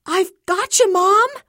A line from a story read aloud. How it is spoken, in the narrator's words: CJ yells